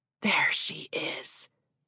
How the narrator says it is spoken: Barlow rasped

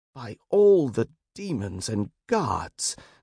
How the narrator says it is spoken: Derek exclaimed

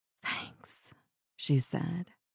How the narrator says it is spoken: her voice a breathless whisper

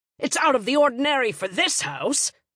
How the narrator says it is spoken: he barked

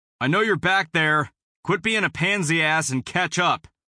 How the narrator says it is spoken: I shouted

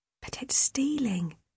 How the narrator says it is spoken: Lydia whispered

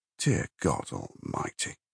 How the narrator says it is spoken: Jackson Brodie muttered

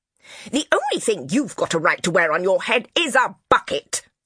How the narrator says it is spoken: shrieked

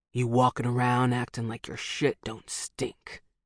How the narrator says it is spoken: he rasps

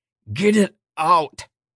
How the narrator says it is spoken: she gritted her teeth, snarling at Itinera, Almaka's milk mother

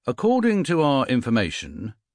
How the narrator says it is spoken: he said

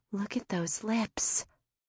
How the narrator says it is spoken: Michelle whispered

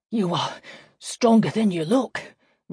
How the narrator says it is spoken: Nanny said, gasping for breath

